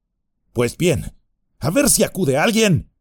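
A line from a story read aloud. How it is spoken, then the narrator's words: Shout. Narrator (Spanish): gritó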